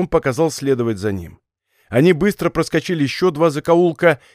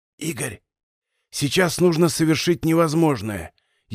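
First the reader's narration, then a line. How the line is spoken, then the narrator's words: Barely audible whisper. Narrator (Russian): еле слышным шепотом сказал Пасников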